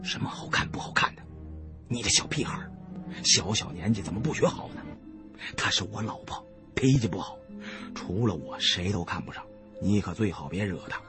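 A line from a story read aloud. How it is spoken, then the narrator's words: Whispering. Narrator (Chinese): 悄声告诉二小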